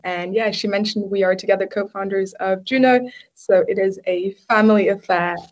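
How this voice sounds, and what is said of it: British accent. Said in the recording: “you might notice the difference in accents. ... she lives in Australia and I live in the UK. So we do tend to sound quite different.”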